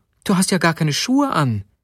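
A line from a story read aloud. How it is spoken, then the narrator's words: Exclaiming. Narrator (German): rief sie aus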